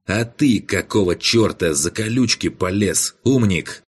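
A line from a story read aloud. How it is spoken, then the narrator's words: Angry man's voice. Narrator (Russian): зло произнес маг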